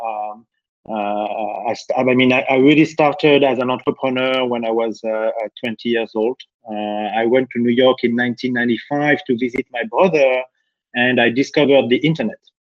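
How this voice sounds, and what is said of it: French accent. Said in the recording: “As you can hear with my accent, I'm French.”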